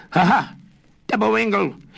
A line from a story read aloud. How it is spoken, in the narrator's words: he laughed